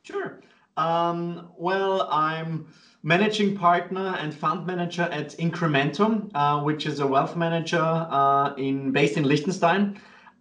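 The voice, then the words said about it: Austrian Viennese accent in English. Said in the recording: “my kind of weird accent, I'm originally from Austria, from Vienna”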